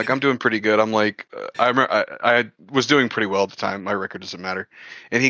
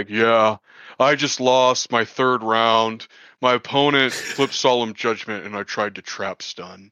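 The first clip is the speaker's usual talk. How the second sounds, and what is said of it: Imitates another person's deep voice. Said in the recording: “Sam has a really deep voice.”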